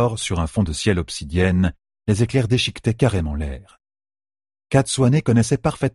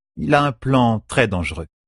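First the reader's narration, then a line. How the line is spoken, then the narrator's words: Plain. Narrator (French): répondit Katsuane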